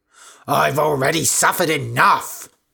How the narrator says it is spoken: shouted Candida

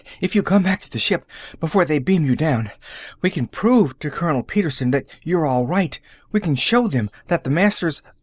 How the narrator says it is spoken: uttered a little gasp

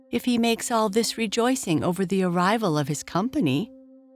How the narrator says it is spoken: said Beauty, trying to laugh

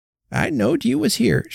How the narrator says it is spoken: she cried in her weak, vehement voice

